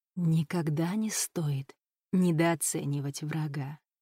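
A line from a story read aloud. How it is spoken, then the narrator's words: Quiet whisper in ear. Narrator (Russian): тихо прошептала на ухо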